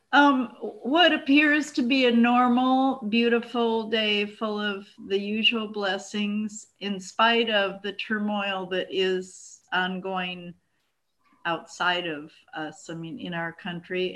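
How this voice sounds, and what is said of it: Choked-up, emotional voice. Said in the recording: “I'm getting choked up here”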